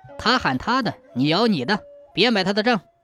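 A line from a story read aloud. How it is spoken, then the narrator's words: Low-voiced instruction. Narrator (Chinese): 乾隆低声吩咐船夫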